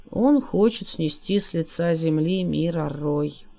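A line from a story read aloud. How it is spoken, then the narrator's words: Dull, flat voice. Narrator (Russian): тусклым голосом отозвался Иллуги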